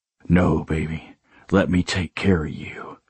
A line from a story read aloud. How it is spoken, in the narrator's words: I murmured